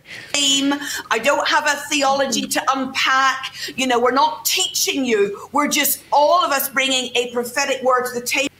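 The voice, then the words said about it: Northern Irish accent. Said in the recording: “this is a Northern Ireland accent”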